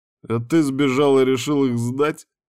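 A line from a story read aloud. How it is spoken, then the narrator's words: Chuckling. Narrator (Russian): хохотнул Ярван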